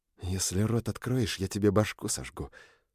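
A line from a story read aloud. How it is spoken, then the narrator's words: Through gritted teeth. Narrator (Russian): процедил Бронан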